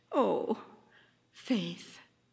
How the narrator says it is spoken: said Hope softly

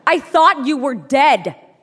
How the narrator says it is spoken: he screamed

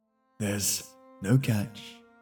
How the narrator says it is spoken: the man said

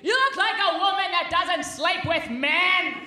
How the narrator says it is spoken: He yelled

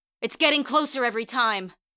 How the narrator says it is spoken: shouted

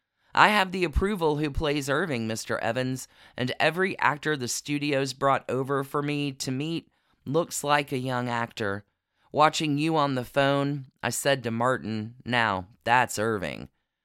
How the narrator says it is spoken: He replied

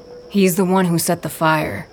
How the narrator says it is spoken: Knack says

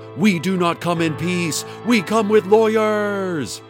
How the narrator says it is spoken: Hadassah screamed at Dana

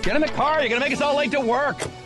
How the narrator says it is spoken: someone yelled

